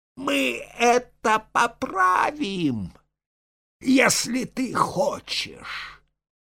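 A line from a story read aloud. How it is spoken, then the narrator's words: Monster shouting. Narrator (Russian): Урод прокричал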